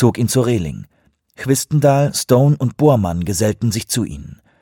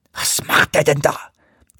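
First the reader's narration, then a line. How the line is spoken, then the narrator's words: Hissed. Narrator (German): zischte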